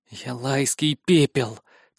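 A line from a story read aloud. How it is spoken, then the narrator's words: Through gritted teeth. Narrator (Russian): цежу я сквозь зубы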